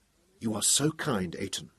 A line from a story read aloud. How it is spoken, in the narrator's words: she whispered